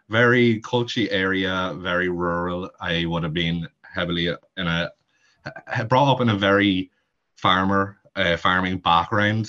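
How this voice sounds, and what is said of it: Heavy rural Irish accent. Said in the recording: “I am from Monaghan, if you can't tell by the heavy accent.”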